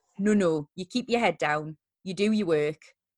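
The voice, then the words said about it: Put-on Geordie accent. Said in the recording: “I adopted a bit of a Geordie accent as I said that.”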